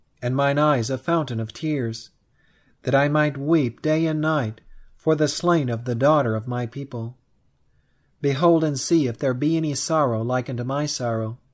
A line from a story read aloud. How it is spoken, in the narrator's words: exclaims Ledger